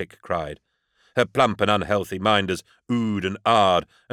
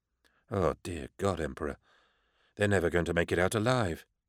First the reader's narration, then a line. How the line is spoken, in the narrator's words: whispered Beckwin